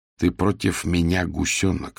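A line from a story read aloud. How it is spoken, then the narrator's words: Plain. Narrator (Russian): сказала она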